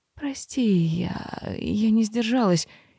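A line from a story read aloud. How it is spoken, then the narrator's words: Frightened breathless exhale. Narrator (Russian): испуганно выдохнула мэр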